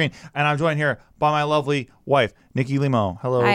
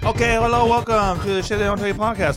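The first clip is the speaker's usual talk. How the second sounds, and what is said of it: Put-on accent. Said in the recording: “What accent is that?”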